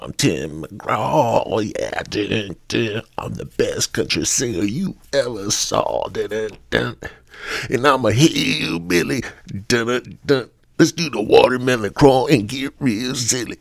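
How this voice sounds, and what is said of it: Imitates a country singer's voice. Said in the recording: “my Tim McGraw imitation”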